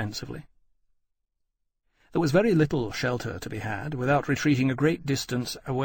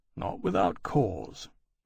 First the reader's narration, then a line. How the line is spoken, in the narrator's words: Lawrence said grimly